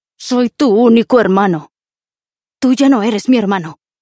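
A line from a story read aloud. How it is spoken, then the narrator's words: Shout. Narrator (Spanish): gritó Martin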